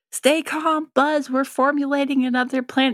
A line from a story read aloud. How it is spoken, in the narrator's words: Rex is, like, yelling